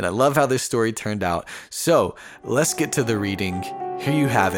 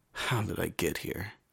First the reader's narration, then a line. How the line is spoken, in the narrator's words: he whispered